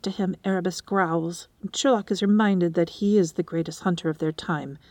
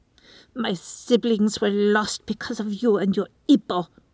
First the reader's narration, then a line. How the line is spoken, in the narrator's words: she snarls at Erebus, making the term of endearment sound like a curse